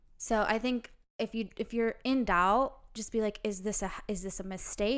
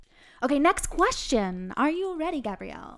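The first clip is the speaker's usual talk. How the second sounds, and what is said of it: Announcer voice. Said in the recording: “I love your announcer voice.”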